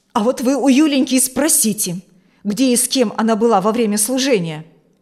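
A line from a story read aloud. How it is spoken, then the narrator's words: Unrestrained bark. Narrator (Russian): Не сдержавшись, рявкнула Алевтина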